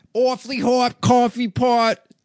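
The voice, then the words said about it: Bad Boston accent impression. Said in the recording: “it sounds gayer and from Boston now ... I guess that kind of sounded Boston ... In a bad impression ... as a gay guy from Boston”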